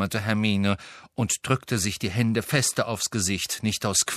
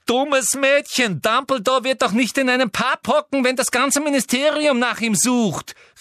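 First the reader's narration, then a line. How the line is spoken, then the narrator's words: Disappointed calling out. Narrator (German): rief Umbridge, und die Enttäuschung war in jede hängende Falte ihres Gesichts geschrieben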